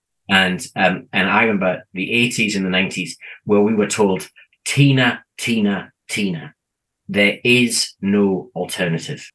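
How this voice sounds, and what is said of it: British accent. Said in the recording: “I come from the UK, as my accent probably gives away”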